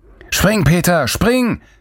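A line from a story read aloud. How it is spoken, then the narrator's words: Bellowed from afar. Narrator (German): brüllte Lorenz von der anderen Seite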